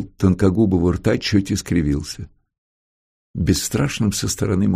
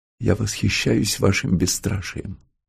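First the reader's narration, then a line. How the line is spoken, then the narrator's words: Whispering. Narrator (Russian): Антон шепотом сказал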